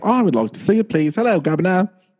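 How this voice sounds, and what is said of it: Put-on British accent. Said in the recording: “How's my dialect work? ... As we go dark in all of UK ... I thought my accent was good”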